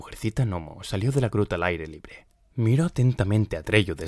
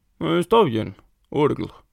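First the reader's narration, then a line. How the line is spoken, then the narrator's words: Little man grumbling. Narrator (Spanish): refunfuñó el hombrecillo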